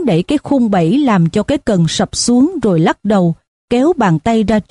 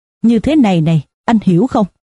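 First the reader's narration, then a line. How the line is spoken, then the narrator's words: Smiling. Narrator (Vietnamese): Hắn mỉm cười với Robert Jordan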